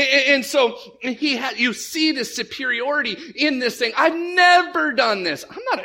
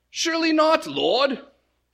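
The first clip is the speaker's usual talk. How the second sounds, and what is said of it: Bad uppity British accent. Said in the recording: “a bad British accent ... he's kind of uppity”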